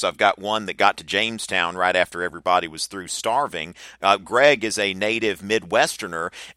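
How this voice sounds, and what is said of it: Southern US accent. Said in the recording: “you can hear my accent. I'm from the South.”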